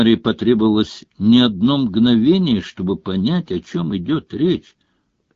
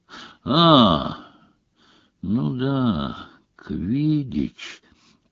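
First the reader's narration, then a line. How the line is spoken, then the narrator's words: Tired drawl. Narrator (Russian): протянул он, устало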